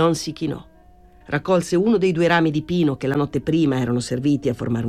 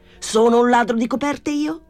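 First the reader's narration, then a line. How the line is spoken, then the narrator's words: Shouted. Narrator (Italian): gridò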